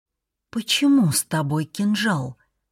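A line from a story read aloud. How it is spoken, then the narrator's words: Whisper. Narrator (Russian): прошептала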